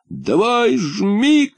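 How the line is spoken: Shouted. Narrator (Russian): кричал

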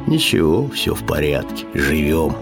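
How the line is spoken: Pensive, sad bass voice. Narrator (Russian): Задумчивый грусть басил

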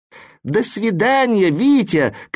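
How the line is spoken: Shouted farewell. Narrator (Russian): кричали вслед знаки препинания

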